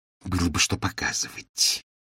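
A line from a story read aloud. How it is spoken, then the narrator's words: Hissing. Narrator (Russian): прошипела героиня Шекспира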